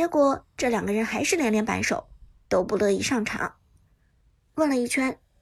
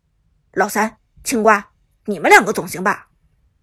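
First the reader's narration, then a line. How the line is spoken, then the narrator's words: Low, stern voice. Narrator (Chinese): 许旺折了面子，沉声道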